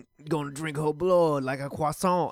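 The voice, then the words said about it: Attempted French accent, sounds Cajun. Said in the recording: “I can't really do a French accent. ... that's more of a Cajun accent.”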